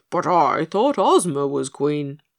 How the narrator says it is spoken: wheezed Pigasus, out of breath from running after Dorothy and too many butternuts

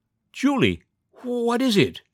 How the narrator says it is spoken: Her voice rose, keen with terror

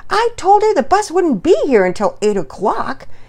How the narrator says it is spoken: Pearson Peters grumbled, a little less excitedly than Penelope

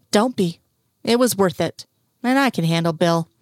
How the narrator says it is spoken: Scully glared at him and said

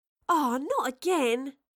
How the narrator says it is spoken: Astrid groaned

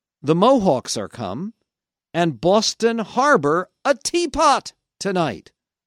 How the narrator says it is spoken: a group of people who shouted out

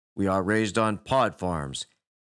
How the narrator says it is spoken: he said flatly

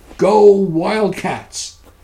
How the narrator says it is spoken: Bertie Buncombe shouted

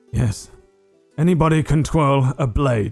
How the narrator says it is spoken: he kind of grunts as it pushes him back in his chair, and he says

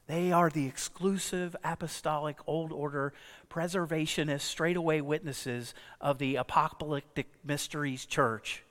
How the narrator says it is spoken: Gabriel smiled and softly and quietly explained

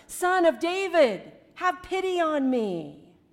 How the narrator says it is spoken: him shout even louder

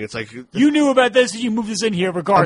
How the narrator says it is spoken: she's just like frantically saying

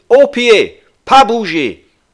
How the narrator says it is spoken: shouted

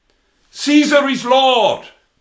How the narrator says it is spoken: They had to shout

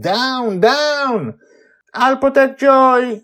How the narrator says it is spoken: Charlie yelling from somewhere

